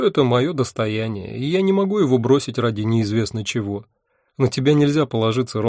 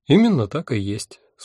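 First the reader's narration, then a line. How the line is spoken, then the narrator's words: Calm agreement. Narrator (Russian): спокойно согласилась Альвианта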